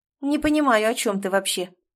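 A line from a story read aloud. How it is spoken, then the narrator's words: Irritated. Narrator (Russian): раздраженно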